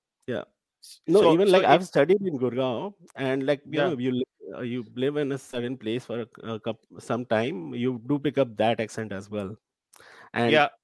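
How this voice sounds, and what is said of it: Gujarati Indian English accent. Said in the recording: “Your accent gives away. You're a Gujarati. So your accent is quite obvious.”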